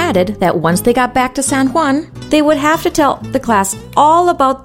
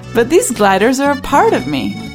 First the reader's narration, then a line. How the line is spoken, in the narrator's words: laughed the Saurian